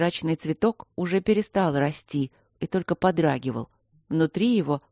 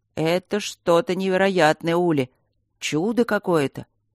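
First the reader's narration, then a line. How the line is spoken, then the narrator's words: Boomed through earpiece. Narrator (Russian): прогудел голос напарника в наушнике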